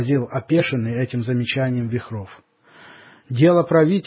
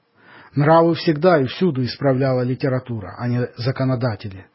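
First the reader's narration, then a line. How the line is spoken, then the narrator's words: Plain. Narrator (Russian): сказала Мари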